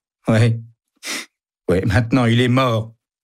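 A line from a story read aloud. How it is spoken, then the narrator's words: Whimpering. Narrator (French): pleurniche Joe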